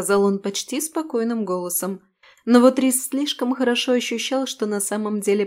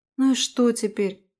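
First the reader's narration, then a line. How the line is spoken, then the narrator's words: Tired sigh. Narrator (Russian): устало вздохнула девушка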